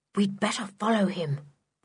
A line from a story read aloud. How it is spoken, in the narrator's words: whispered Julian to Dick